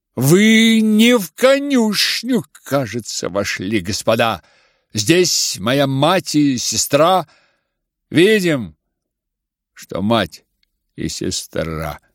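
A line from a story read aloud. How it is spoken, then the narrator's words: Through gritted teeth. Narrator (Russian): процедил сквозь зубы Рогожин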